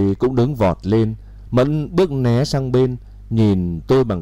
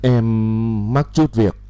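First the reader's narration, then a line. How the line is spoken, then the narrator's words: Weary stammer. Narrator (Vietnamese): khuôn mặt bơ phờ, Mẫn lắp bắp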